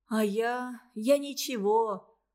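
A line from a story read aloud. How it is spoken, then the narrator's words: Sighing. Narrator (Russian): вздохнул братишка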